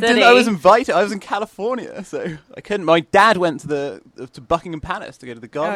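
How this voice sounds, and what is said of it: British accent, southwest England. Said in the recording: “slightly jet-lagged British accent ... I'm from Bristol in England ... Which is in the southwest”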